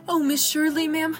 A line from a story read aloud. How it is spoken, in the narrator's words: gasped Charlotta